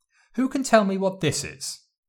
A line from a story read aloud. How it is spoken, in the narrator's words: Lady Lily asked